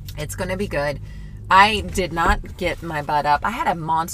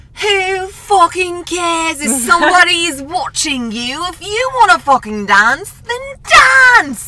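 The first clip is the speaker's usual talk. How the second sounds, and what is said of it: Put-on British accent. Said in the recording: “this cute British man. I'm going to do a little accent that he does”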